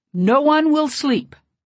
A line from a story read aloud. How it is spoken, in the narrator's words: Tatakuvadundu suddenly shrieked